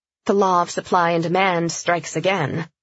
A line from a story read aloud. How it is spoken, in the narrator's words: Emily said dryly